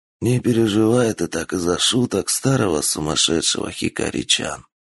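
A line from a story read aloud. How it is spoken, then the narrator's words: Old man whispering. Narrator (Russian): шепнул старик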